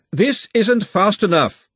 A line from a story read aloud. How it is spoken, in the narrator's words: Glenda shouted